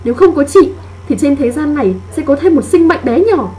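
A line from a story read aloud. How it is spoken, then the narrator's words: Wounded woman screaming. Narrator (Vietnamese): lòng tự trọng của cô gái kia bị tổn thương, cô ta gào lên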